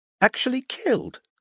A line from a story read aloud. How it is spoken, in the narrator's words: asked Gregory, his voice rising an octave